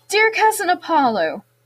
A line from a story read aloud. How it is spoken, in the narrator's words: he said brightly